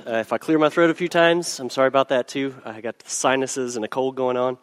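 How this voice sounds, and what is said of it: Hoarse voice. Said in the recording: “apologize for my hoarse voice”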